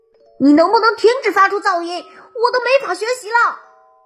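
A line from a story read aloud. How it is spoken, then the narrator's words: Angry roar. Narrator (Chinese): 克罗迪愤怒的吼道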